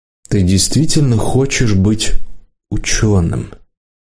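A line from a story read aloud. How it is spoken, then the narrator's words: Gentle question. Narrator (Russian): Гошник мягко спросил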